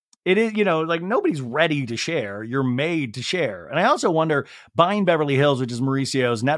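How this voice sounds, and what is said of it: Usual voice. Nothing is said of it.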